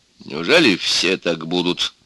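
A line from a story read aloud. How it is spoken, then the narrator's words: Plain. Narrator (Russian): спросил психопат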